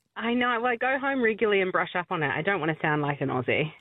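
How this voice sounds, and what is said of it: New Zealand accent. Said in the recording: “Are you a Kiwi? ... you still haven't dropped your Kiwi accent”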